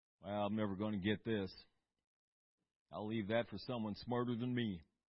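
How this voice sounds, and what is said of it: Put-on American Southern accent. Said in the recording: “I don't know why I use a southern accent when I do that.”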